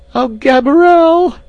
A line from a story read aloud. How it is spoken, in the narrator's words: she screamed